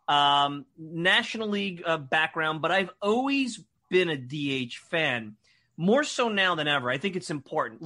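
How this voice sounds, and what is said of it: Brooklyn New York accent. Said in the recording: “I've got the Brooklyn accent for 26 years, and now I've been on Long Island for 15 or 16. So I've morphed into something far more insidious for the public to listen to.”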